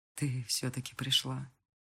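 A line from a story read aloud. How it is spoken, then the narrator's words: Quiet. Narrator (Russian): тихо говорит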